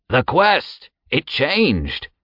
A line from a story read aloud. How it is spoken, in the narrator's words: another man suddenly shouted